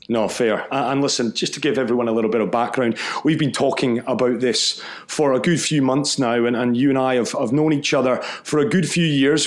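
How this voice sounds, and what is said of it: Mancunian English accent. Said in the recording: “You can probably hear it, that Mancunian accent.”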